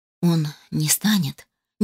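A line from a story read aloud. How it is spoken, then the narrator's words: Uncertain. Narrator (Russian): неуверенно произнес Питер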